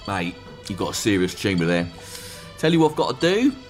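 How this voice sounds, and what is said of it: Put-on working-class British accent. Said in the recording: “There's something reassuring about the working-class accent. I'd like to see some bloke holding up a scan going,”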